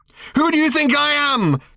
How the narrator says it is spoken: she demanded angrily

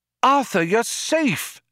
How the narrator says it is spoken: a voice cried

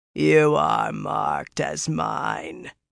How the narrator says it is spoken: the great lord rasped

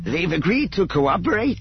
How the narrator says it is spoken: Ebrahim asked eagerly

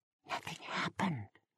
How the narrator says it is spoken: cowering, Sarah whispered

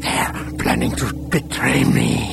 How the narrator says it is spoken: he whispered harshly

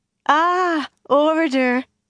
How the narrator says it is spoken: Rendra laughed

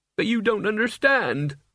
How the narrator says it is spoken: Mort wailed

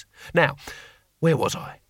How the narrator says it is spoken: He sighed

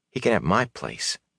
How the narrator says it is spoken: Matt muttered to Rand

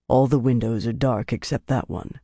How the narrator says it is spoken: he told Van Deen quietly

